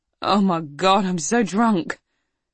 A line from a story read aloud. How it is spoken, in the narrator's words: Melissa moaned